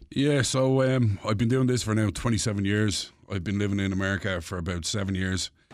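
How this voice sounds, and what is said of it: Dublin Irish accent. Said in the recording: “I thought that was a fake accent ... pure Dublin”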